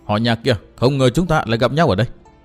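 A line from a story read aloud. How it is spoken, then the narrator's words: Cold laugh, then speaking. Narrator (Vietnamese): Vạn Diệu Tiên Cô cười nhạt một tiếng rồi nói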